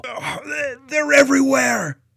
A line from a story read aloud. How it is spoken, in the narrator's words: a soldier yelled